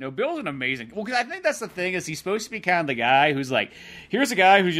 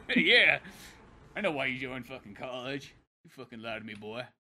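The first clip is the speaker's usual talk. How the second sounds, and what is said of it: Put-on Southern accent. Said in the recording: “Southern accent ain't fooling nobody”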